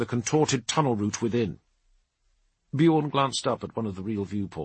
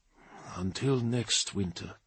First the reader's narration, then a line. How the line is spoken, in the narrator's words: breathed Bjorn